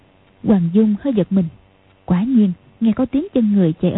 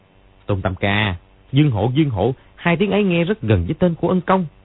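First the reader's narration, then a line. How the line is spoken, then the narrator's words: Disappointed, sudden loud cry. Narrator (Vietnamese): có vẻ thất vọng, lẩm bẩm gì đó, đột nhiên kêu to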